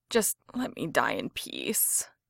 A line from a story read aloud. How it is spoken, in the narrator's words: Jensen moaned